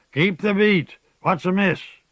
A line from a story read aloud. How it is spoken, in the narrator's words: roared the hoarse, whistling voice from the prow